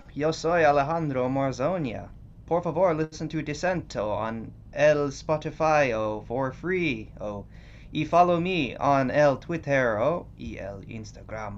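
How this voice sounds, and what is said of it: Put-on foreign accent. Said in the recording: “what was the accent you were just doing?”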